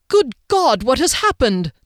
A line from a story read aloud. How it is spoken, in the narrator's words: the mage cried at the sight of Harley, the blood, the broken tea things, and a lot of missing people